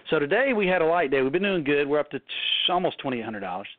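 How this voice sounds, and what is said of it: Southern US accent. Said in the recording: “in case you can't understand our southern accents.”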